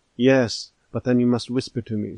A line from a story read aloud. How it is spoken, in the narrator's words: said the latter